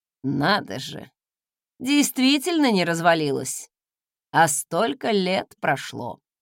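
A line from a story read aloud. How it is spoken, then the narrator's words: Snort, then explaining. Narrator (Russian): Он хмыкнул и пояснил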